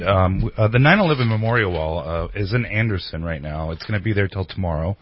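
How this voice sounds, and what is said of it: Great radio-style voice. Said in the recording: “he has such a great radio voice”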